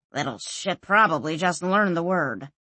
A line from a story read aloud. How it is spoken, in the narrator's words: growled Orso